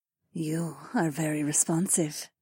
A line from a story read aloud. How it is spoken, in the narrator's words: Zoe purred